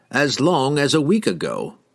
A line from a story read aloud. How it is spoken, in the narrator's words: he replied calmly